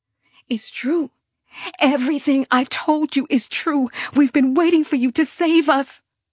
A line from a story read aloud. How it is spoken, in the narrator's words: I said desperately